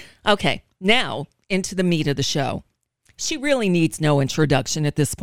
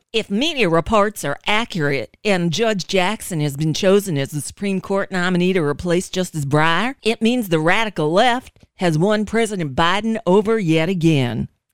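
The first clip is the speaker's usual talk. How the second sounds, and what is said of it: Bad Lindsey Graham impression. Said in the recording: “I know it's a bad Lindsey Graham imitation”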